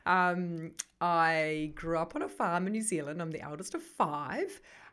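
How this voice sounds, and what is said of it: New Zealand accent. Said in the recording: “I come originally from New Zealand. I still have that accent”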